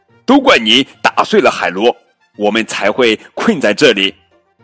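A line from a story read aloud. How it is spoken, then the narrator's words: Loud blaming. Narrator (Chinese): 达什大声的责怪提奥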